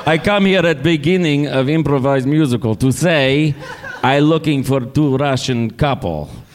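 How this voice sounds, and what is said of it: Put-on Russian accent. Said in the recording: “This is the accent. This is the impression. ... I'm really Vladimir.”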